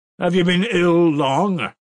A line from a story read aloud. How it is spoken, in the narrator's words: cried Ilya Petrovitch from his place